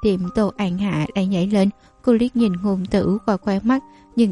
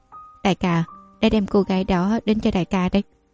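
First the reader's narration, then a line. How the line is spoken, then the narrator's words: Deferential. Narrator (Vietnamese): một người cúi đầu khom người nói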